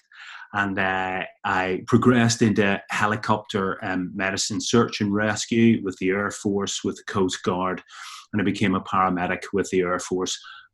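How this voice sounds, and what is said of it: Northern Irish accent. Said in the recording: “I started in the ambulance service in Northern Ireland, where I picked up this accent”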